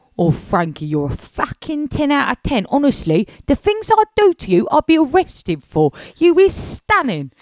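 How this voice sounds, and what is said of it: Funny imitated accent of another person. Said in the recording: “Your accent is so funny.”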